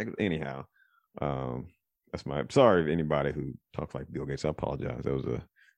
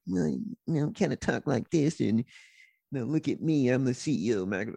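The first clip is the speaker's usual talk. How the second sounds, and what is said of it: Imitates another person's voice. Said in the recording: “I don't do a real good Bill Gates impersonation. He kind of talks like”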